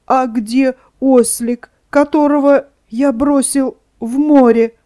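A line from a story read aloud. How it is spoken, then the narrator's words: Sobbing, stuttering. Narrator (Russian): он сказал, всхлипывая и заикаясь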